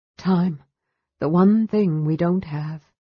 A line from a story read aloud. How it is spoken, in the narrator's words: Lorana said with a sigh